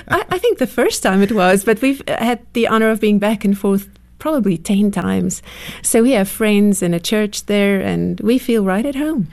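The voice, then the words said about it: South African accent. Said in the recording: “wonderful accent ... coming from South Africa”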